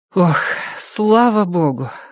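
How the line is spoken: Breathless relieved exhale. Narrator (Russian): выдохнула Робин, перебежав дорогу

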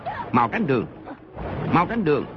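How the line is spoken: Loud barked command. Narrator (Vietnamese): Mộc Hoa Lê quát lớn

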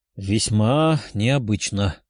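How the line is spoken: Uncertain, young man. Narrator (Russian): неуверенно ответил парень

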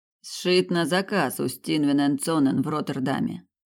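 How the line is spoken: Grumbling mutter. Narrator (Russian): пробурчал он

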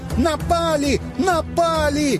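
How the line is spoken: Puppy wailing. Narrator (Russian): Щенок завопил

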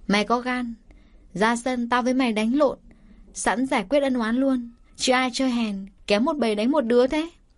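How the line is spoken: Brash burst of laughter. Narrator (Vietnamese): Kim Chi thuộc dòng dõi ngang ngược, cô ta cười phá lên

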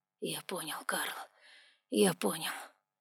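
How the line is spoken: Ruler's whisper. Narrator (Russian): прошептал повелитель

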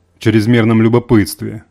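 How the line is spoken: Sorcerer's angry retort. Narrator (Russian): зло бросил колдун

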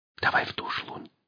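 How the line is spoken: Whispering. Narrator (Russian): шепнула она

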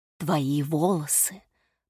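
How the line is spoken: Woman's whisper. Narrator (Russian): прошептала женщина

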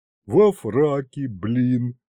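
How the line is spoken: Chuckling. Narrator (Russian): хохотнул Аристофан

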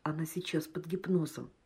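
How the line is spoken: Quiet. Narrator (Russian): Патмосов тихо сказал

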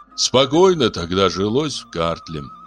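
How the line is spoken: Sighing, king. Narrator (Russian): вздохнул царь

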